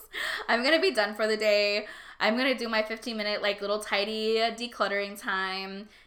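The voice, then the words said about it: Strained, fading voice. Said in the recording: “I'm like losing my voice.”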